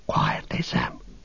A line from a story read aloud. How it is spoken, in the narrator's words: Frodo whispered